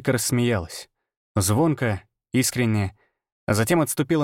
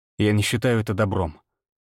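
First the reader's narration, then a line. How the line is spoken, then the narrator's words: Cold reply. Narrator (Russian): холодно ответил я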